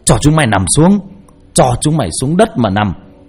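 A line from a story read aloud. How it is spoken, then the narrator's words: Shout. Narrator (Vietnamese): Trọng hét lên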